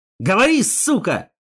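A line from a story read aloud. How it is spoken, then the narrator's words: Shouting. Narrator (Russian): Снова выкрикнул я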